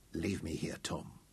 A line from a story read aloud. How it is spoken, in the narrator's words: Dorian whispered